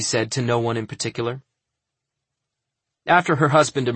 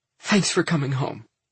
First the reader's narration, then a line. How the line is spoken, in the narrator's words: said sobbing